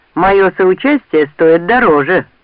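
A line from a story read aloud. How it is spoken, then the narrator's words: Grumbling. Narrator (Russian): проворчал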